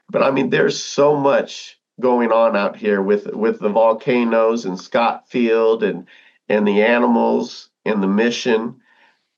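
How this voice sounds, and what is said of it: Rough, strained voice. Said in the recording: “my voice is all messed up”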